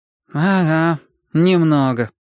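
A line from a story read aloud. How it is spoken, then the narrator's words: Knowing sigh. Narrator (Russian): проницательно вздохнул Май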